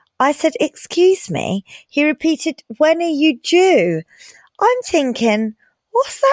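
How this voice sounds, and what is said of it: Usual voice. Nothing is said of it.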